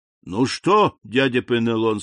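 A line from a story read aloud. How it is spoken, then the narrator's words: Plain. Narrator (Russian): сказал мне капитан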